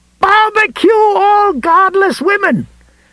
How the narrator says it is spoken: he screamed

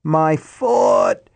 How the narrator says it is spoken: Deke was screaming

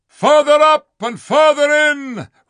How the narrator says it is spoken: roared the unicorn

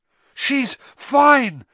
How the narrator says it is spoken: Harry tried to tell her, but he was so exhausted he could hardly talk, let alone shout

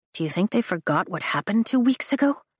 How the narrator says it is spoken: Riddick whispers

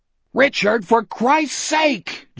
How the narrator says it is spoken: Jack roared

